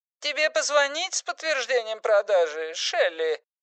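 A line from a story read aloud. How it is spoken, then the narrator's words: Squeaky question. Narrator (Russian): спросил своим писклявым голосом Эрл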